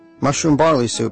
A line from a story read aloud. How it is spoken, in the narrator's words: he shouted